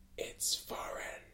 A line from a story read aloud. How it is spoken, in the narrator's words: with his voice dripping of dark caramel and smooth jazz, he whispered for the second time